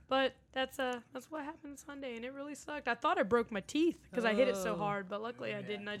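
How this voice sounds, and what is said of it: Southern drawl. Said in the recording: “I'm very Southern. So, you know, I got a Southern drawl”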